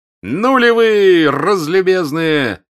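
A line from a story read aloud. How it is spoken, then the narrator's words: Shout. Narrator (Russian): крикнул Николай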